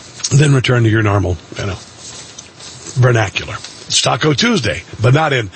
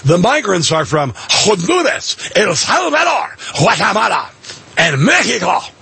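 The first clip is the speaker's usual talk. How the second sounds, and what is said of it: Put-on Spanish-style news anchor accent. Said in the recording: “I should do it like they do news anchors, just suddenly change my accent, even though I don't speak Spanish.”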